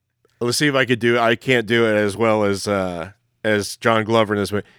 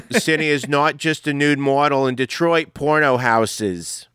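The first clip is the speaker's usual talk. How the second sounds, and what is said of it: Put-on Philadelphia accent. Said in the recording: “I'm going to read this with that Philly accent”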